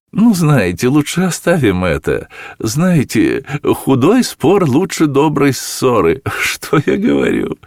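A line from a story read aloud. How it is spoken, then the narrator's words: Laughing speech. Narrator (Russian): Она засмеялась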